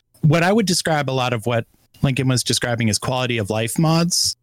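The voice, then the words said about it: Hoarse, fading voice. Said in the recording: “I'm just getting over being sick. So I'm fighting through losing my voice.”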